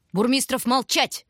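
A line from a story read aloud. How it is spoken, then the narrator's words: Quick snap. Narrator (Russian): Быстро огрызнулась она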